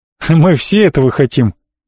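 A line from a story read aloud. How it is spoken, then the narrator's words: Laughing. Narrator (Russian): засмеялся Джон Сэмпл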